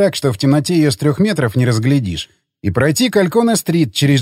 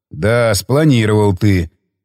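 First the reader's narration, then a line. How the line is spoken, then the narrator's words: Smirking. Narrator (Russian): хмыкнул он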